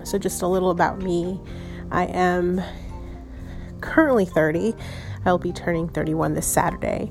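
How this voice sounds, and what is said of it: Stuffy, slightly breathless voice. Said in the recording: “if I sound like I'm out of breath, it's because I'm a little stuffy”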